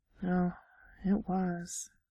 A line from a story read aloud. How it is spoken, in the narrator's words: Errol murmured